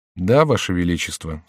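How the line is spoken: Quiet speech. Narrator (Russian): сказал тихо человек

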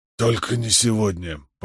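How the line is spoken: Hoarse reply. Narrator (Russian): последовал хриплый ответ

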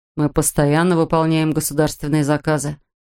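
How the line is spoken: Calm explanation. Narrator (Russian): спокойно пояснил он

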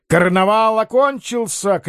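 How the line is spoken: Shouted. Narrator (Russian): крикнул командор

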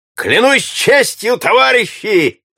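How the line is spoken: Shout. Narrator (Russian): закричал в свою очередь Эльвард

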